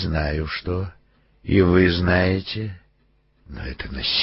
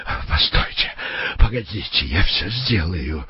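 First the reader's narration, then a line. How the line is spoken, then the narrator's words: Shriek. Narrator (Russian): взвизгнул Беллингем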